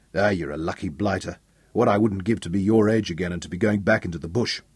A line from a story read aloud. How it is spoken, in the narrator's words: he broke off to shake his head and grumble